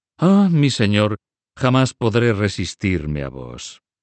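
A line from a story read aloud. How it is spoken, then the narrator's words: Sighing. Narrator (Spanish): dijo Ptolomei suspirando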